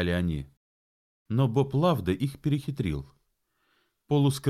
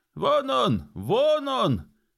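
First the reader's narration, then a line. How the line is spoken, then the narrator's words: Group of men shouting. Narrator (Russian): закричали вербовщики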